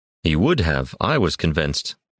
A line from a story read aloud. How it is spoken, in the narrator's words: Bavatrain replied